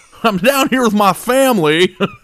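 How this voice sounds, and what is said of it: Put-on Southern American accent. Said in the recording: “Brian Kelly's Southern accent”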